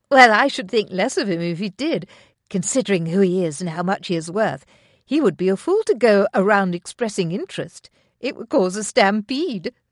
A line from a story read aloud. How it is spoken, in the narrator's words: said Lady Tenwessel